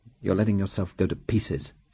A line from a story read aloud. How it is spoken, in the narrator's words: she said bitterly